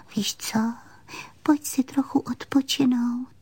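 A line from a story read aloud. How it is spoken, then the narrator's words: Doll whispering. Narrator (Czech): Panenka pošeptala jí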